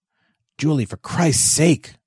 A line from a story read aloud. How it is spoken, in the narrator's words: Joseph hissed